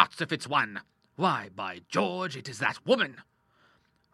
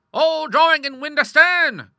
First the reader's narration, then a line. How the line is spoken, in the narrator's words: cried the admiral